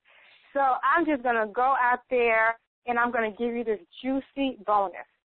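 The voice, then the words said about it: Excited, energetic voice. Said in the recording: “I'm excited. You could tell it in my voice.”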